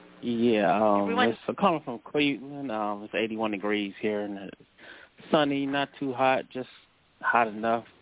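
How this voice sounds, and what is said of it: Smooth, resonant radio-style voice. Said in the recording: “you've got a great radio voice”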